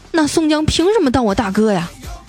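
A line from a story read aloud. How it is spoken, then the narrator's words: Plain. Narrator (Chinese): 算命先生说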